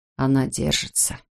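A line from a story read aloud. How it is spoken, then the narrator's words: Quiet report. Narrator (Russian): тихо сообщил тот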